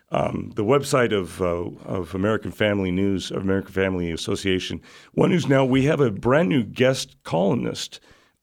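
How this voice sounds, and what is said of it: Voice strained by a cold. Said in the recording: “forgive my voice, I'm fighting off a cold”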